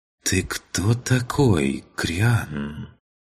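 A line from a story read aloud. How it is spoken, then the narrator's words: Soft voice. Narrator (Russian): мягким голосом произнесла Чин-Чин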